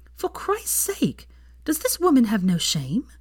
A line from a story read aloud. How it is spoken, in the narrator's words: she exclaimed